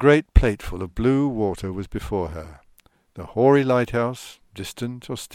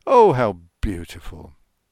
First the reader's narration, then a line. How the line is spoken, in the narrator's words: Ramsay could not help exclaiming